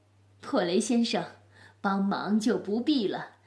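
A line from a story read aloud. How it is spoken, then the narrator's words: Laughing old woman. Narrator (Chinese): 钥匙奶奶大笑着，说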